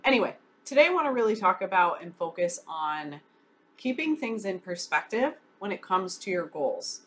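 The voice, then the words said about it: Slightly nasal, congested voice. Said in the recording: “dealing with a little bit of a cold flu here, so if my voice sounds a little nasally”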